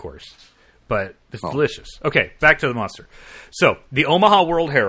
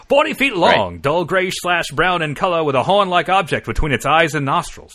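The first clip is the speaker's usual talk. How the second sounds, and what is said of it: Put-on mid-Atlantic accent. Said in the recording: “Wait, this is 1923. I got to do my mid-Atlantic accent.”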